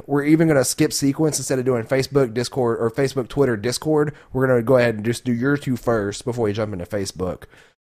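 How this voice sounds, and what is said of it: Deeper, strained voice from sore throat. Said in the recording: “my throat's going out. You may be able to hear that ... you sound like a little deeper. You sound like if you were trying to slowly lean yourself into auditioning for the role of Batman”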